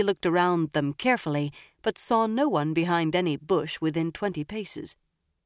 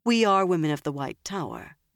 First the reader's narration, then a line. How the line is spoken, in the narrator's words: Nynaeve said calmly